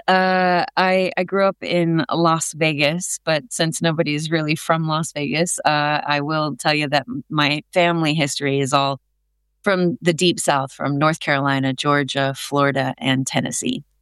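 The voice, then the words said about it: American accent. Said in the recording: “as you can tell by my accent, I come from across the pond”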